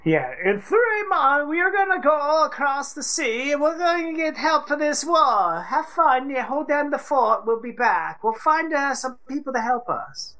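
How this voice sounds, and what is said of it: Put-on unidentified accent. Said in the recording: “I don't know what accent that was”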